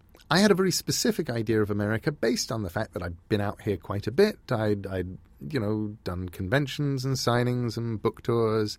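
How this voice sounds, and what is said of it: English accent. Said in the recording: “I'm English. ... They don't believe the accent is still English back in England, but at least out here people do.”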